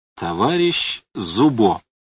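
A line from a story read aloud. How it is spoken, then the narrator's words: Even, level proclamation. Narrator (Russian): ровным голосом провозгласил Лавр Федотович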